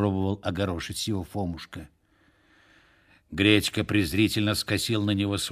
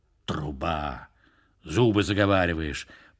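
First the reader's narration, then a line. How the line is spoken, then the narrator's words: Grumbled, male. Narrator (Russian): пробурчал он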